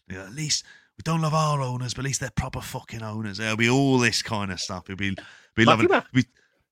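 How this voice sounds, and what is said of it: Badly done put-on accent. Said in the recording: “That was a terrible accent. I'm sorry. The one accent I try to actively avoid around you because it sounds so bad.”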